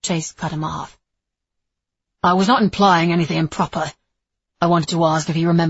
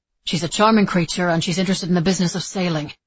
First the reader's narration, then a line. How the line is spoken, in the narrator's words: Nicholas said quickly